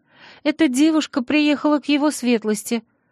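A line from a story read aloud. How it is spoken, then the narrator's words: Timid squeak. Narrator (Russian): пропищала горничная, вжав голову в плечи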